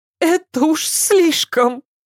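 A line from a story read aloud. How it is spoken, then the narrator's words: Sobbing. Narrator (Russian): Опять рыдание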